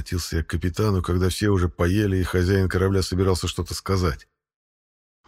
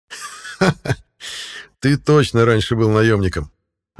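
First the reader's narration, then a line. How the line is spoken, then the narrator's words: Laughing. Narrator (Russian): рассмеялся Грол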